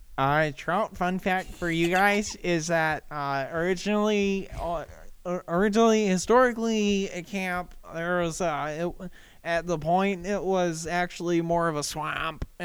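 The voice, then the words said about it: Nerdy character voice. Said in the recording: “The accent that she gave me is nerd.”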